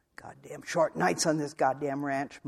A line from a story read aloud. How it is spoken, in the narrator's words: muttered Archie